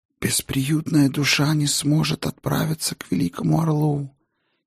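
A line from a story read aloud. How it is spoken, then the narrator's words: Barely audible ghostly whisper. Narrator (Russian): еле слышно прошептал призрак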